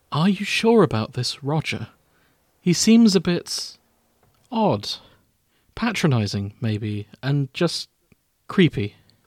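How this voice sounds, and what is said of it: Soft-spoken voice. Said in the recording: “speaks in a soft voice”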